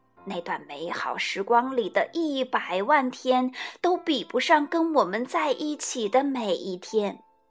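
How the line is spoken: Quiet, smiling. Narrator (Chinese): 他笑起来，小声地说

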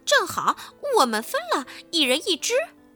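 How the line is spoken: Laughing. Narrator (Chinese): 田鼠普老大笑道

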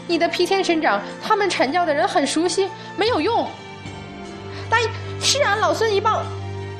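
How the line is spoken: Calling out from below. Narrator (Chinese): 沉香也在下面叫道

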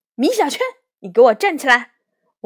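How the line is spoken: Stern teacher shouting. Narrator (Chinese): 魏老师的脸上突然没了笑容，大喊

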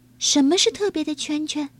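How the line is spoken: Plain. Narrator (Chinese): 由美问

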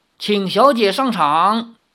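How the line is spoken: Loud announcement. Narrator (Chinese): 管家林中高声说

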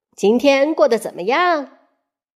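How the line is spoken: Smiling. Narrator (Chinese): 他笑着说

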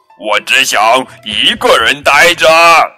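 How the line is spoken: Wild roar. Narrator (Chinese): 大熊发疯似的大吼

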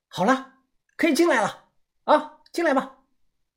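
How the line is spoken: Shouting. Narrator (Chinese): 范神医……他喊了起来

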